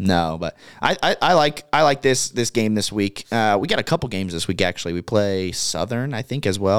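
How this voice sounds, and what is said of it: Usual voice. Nothing is said of it.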